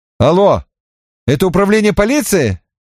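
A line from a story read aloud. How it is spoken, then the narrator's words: Loud question. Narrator (Russian): громко спросил я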